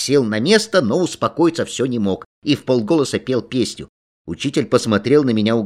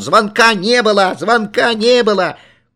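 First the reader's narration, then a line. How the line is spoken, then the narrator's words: Uncontrollable full-throated yelling. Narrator (Russian): Я не мог остановиться и во все горло орал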